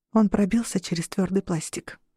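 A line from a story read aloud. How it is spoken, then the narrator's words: Whispered. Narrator (Russian): прошептала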